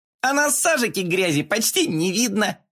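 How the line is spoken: Giggled. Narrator (Russian): хихикнул Коржик

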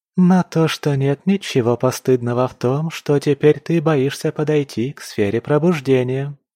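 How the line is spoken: Innocent drawl. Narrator (Russian): невинным тоном протянула

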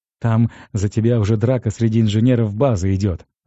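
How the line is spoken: Laughing. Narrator (Russian): рассмеялся сержант

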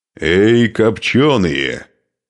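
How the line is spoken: Roared, in Slavic. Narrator (Russian): взревел Нурман по-славянски

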